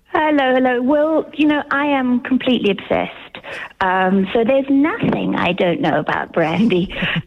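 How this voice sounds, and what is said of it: English accent. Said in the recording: “in an English accent,”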